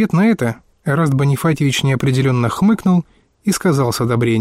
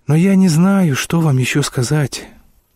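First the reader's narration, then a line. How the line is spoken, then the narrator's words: Weary speech. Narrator (Russian): проговорил Вадим, устало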